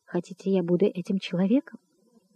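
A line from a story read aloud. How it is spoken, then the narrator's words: Trembling, excited whisper. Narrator (Russian): весь дрожа от волнения, прошептал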